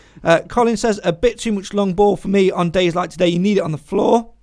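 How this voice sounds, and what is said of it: Croaky, strained voice. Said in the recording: “You can tell I've been shouting because my voice is going all croaky.”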